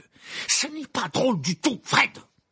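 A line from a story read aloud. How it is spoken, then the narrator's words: Exclaimed. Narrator (French): s'écria-t-il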